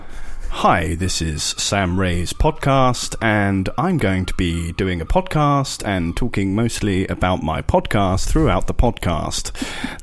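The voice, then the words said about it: Slightly posh radio voice. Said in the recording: “that didn't sound like Sam. That just sounded like you doing a slightly posh voice. ... It was a good radio voice.”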